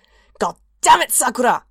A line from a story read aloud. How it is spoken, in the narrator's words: He snarled